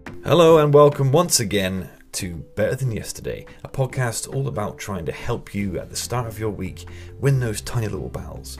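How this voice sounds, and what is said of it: Put-on cool, sexy voice. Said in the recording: “I was trying to do the cool, sexy voice thing. ... I don't know why you keep doing the sexy voice.”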